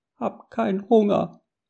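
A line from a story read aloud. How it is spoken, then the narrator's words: Squeaky voice. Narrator (German): piepste Japhet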